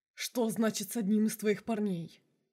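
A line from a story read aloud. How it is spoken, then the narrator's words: Growling. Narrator (Russian): прорычал изгой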